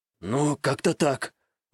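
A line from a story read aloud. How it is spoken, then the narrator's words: Exhale. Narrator (Russian): выдохнул Такаши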